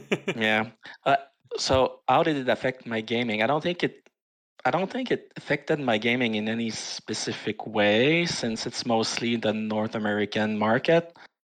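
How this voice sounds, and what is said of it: French Canadian accent. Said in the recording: “So a little French guy here. You might have noticed the accent.”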